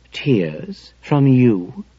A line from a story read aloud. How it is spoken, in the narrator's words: the captain said soothingly to me